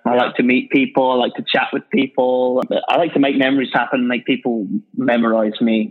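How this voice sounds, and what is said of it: British accent. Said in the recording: “that's the British guy from Orbis. I think the accent helps me ... you do have a little bit of a leg up with the accent”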